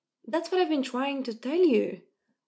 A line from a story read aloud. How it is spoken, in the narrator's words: Mo said excitedly